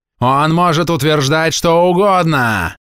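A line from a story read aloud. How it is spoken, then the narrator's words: Furious yelling, head doctor. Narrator (Russian): вне себя заорал главврач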